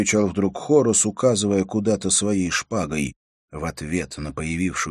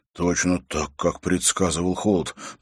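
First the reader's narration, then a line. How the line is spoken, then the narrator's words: Muttering. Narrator (Russian): пробормотал Хорос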